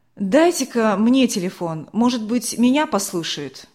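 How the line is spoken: Sharp, commanding voice. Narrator (Russian): резким властным голосом начал что-то говорить

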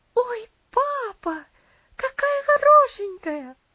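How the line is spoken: Delighted girl exclaiming. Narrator (Russian): воскликнула девочка в восторге

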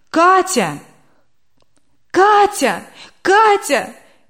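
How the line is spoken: Wife shouting. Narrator (Russian): кричала супруга

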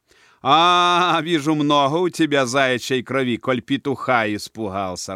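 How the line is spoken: Laughing. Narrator (Russian): рассмеялся главный Рома

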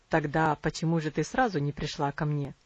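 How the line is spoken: Wry question. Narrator (Russian): кривым тоном спросил он

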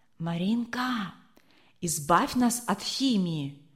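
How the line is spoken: Whisper, boy. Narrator (Russian): шепнул высокий мальчик

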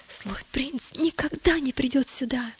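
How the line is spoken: Whisper. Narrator (Russian): прошептал

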